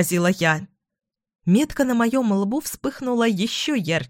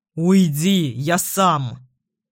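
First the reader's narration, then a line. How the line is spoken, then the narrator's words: Growl. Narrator (Russian): рыкнул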